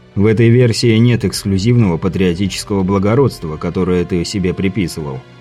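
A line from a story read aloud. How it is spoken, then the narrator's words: Calm statement. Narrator (Russian): спокойно заявил Андрей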